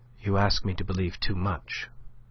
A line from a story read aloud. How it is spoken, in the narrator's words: said she, but her tone was softer than he had ever known it yet